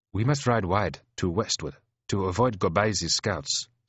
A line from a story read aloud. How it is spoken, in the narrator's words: says Ulaba Walk